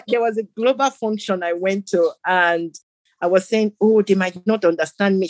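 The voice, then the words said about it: African accent. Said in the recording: “you can see I haven't lost my African accent”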